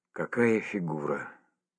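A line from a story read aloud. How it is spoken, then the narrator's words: Admiring whisper. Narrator (Russian): восхищенно прошептал кто-то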